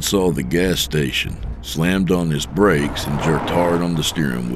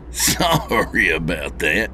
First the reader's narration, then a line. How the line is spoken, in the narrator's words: he said with a chuckle